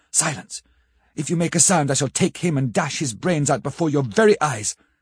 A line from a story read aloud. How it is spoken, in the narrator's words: he spoke in a sort of keen, cutting whisper